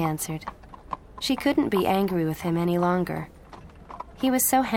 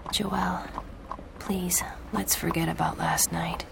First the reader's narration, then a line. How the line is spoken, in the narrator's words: he whispered